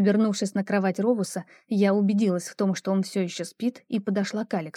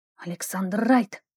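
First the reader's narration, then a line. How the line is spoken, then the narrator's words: Hissed. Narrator (Russian): прошипела я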